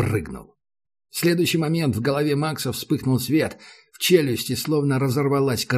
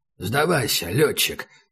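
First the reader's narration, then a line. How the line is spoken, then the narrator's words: Hoarse. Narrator (Russian): сказал Убер хрипло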